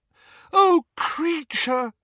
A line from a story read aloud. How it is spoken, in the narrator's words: wailed Hermione, who was crying